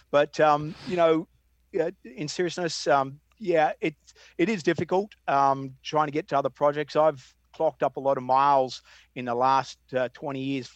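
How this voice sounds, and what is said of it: Australian accent. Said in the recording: “You guys are half Aussie, I might be half American... I'm never going to give my accent up... that's why I'm going to keep my accent”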